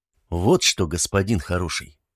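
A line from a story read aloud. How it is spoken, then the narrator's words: Calm border guard. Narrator (Russian): спокойно продолжил пограничник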